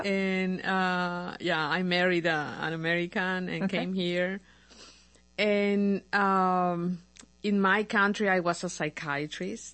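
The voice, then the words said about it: Non-American accent, from Paraguay. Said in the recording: “my accent is not very American ... I'm from Paraguay”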